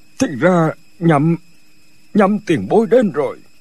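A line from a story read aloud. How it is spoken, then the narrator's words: Trembling voice. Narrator (Vietnamese): Bảo đại sở run run nói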